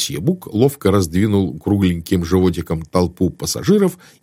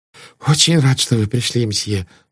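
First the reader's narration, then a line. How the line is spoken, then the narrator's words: Relieved sigh. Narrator (Russian): сказал проводник, вздохнув с облегчением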